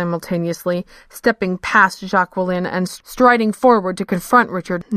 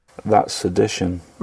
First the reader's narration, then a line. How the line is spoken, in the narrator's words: Richard said softly